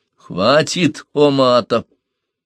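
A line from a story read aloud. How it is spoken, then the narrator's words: Stern command. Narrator (Russian): строго приказал он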